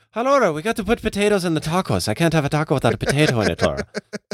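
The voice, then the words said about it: Put-on Irish accent. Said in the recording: “I'm getting okay at Irish. I was speaking Irish right there. I'm getting all right.”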